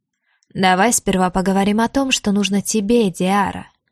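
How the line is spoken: Purring. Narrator (Russian): почти промурлыкал мужчина

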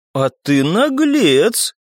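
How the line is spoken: Surprised tone. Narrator (Russian): прокомментировала черненькая каким-то удивленным тоном

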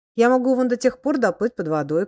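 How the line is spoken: Shouting. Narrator (Russian): кричал он

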